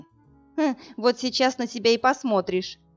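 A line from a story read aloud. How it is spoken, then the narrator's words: Nervous giggle. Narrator (Russian): нервно хихикнула девушка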